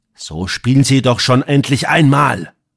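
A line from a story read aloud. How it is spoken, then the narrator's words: Sudden exasperated hiss. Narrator (German): verließ ihn die Haltung und er fauchte ihn plötzlich an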